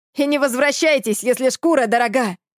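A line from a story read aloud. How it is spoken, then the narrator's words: Shout with a smile. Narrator (Russian): крикнул им вдогонку Южик, улыбаясь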